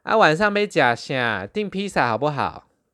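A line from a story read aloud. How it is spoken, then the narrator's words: Loud middle-aged woman asking. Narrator (Chinese): 一个中年女子的声音，大声的问说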